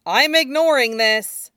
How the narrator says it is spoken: Yubai says loudly

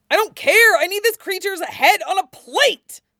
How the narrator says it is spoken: screams Wen Chao

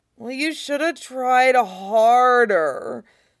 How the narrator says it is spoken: Ed whines

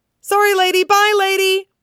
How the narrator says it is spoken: blurts in one rushed breath

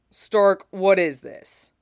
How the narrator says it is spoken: Stannis said sharply

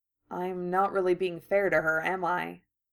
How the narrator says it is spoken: Draco asked quietly

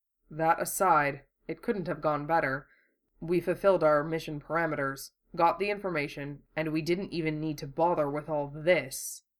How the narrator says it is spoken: Hiro added dryly

